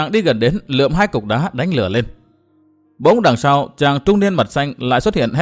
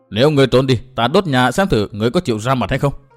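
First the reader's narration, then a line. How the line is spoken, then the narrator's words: Angry mutter. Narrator (Vietnamese): mặt mày đỏ au vì giận dữ, chàng lẩm bẩm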